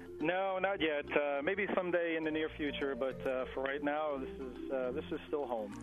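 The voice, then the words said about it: Long Island New York accent. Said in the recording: “He's up in Long Island, New York, and I think you'll be able to tell that even ... has been in New York for a while ... I love that accent, man.”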